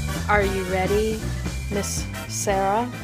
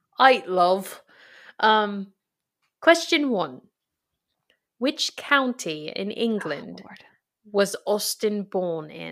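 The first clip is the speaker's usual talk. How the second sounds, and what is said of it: Put-on Cockney British accent. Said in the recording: “a British accent? ... That's a Cockney accent.”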